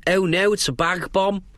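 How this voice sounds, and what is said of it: Put-on Scouse accent. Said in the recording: “that was how to do a Scouse accent”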